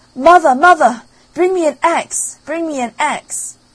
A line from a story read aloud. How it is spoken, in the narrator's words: he called out